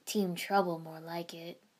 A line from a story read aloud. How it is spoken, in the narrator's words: Sensei muttered